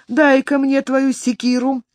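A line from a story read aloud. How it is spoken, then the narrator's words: Shout. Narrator (Russian): крикнул ему Уильям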